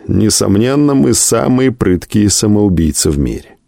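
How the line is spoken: Laughing. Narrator (Russian): Кто-то из наших, смеясь, сказал однажды

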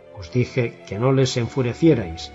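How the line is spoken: Relieved mutter. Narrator (Spanish): musitó, aunque pareció aliviado de que la cosa no fuera peor

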